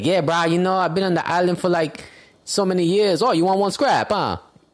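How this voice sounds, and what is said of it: Hawaiian pidgin voice, slightly Jamaican-sounding. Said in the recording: “sound Jamaican a little bit”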